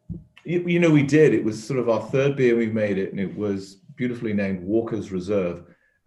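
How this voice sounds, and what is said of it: British accent. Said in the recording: “He's British ... a guy with that accent”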